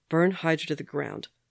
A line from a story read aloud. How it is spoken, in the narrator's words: Bucky said, flatly